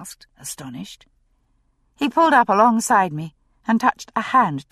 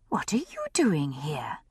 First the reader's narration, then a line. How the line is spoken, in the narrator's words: I asked, lowering my voice